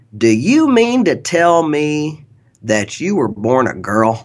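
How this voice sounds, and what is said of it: Southeast Kansas accent. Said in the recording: “I say this is a Southeast Kansas accent because I grew up down there”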